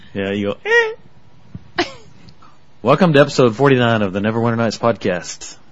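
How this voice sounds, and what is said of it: Unusually deep voice. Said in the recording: “you have my deep voice today ... you're kind of scary tonight.”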